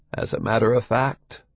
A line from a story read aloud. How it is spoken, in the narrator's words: Donald Pleasance agrees softly